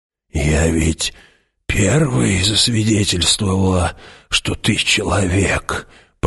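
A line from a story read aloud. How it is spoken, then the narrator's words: Mutter. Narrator (Russian): пробормотала она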